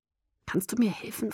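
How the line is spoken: Quiet question. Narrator (German): fragte ich leise

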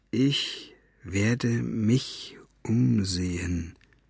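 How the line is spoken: Quiet reading aloud. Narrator (German): las er leise

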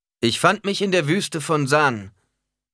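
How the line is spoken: Preacher calling out. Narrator (German): rief der Prediger

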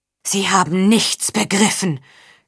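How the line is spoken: Gasping. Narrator (German): keuchte Berengaria

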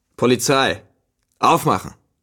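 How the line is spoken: Thundering shout. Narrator (German): eine donnernde Stimme rief

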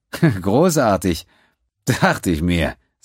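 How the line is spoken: Giggling. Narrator (German): sagte Quinn kichernd

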